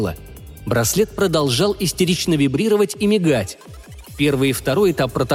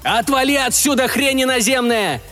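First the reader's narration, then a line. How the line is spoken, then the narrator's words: Shouting. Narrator (Russian): заорал настоящий Макс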